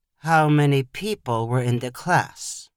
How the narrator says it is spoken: she asked in a deadly serious voice

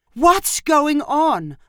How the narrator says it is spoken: cried, rushing toward her husband

